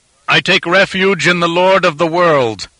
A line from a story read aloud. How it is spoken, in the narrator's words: Tolkaza called out defiantly